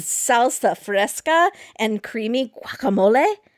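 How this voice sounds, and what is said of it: Put-on accent. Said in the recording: “I'm trying to do an accent.”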